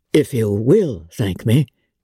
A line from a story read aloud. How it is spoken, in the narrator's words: he replied